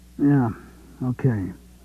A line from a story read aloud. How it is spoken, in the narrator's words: he mumbled